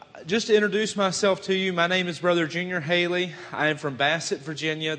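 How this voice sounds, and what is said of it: Southern American accent. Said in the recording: “by my accent, yes, that is part of the South ... they tell me I have a bad Southern accent”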